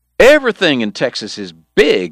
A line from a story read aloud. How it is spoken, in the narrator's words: Eddie was hollering now